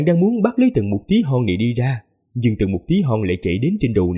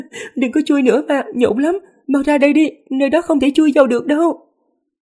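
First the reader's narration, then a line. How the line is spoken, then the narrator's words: Giggling ticklish laughter. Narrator (Vietnamese): không nhịn được bật cười khanh khách mà nói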